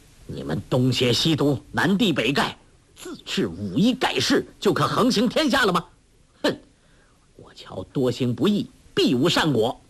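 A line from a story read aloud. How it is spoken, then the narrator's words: Loud, furious. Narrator (Chinese): 柯镇恶正当狂怒不可抑制，当下大声说道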